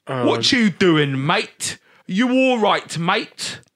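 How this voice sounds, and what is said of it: Exaggerated bad Cockney accent. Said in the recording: “the worst Cockney accent ever... Dick Van Dyke doing the voice”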